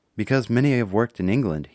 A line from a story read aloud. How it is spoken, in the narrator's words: he said